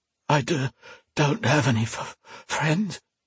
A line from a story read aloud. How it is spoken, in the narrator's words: Alesh gasped